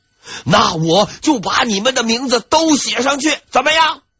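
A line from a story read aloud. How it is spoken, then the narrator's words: Loud furious reply. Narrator (Chinese): 王希爵气得不行，大声回复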